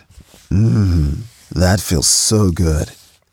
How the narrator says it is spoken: he said in his deep, sexy voice

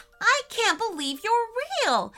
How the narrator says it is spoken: exclaimed Crew

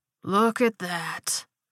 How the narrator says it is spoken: Glenn drawled

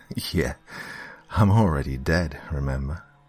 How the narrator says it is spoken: Annie sighed deeply

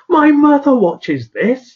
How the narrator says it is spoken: one woman in the audience shouting out

